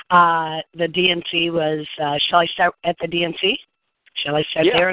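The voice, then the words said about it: Hoarse, nearly lost voice. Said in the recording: “My voice is almost gone from being at the DNC the last couple of days.”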